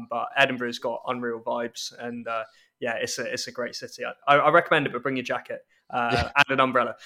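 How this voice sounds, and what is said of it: London accent. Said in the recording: “as obviously people can tell from my accent and regular listeners will know, I grew up in London despite being Scottish”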